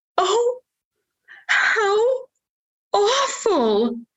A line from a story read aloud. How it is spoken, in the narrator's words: The fairy godmother gasped